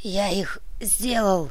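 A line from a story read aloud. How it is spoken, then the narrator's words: Faint dry-throated whisper. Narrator (Russian): хотел крикнуть, но пересохшее горло сподобилось лишь на призрачный шепот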